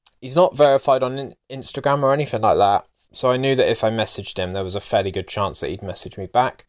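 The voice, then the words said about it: Southern twang accent. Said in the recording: “Not a vocalist myself, as you can probably tell, with my southern twang.”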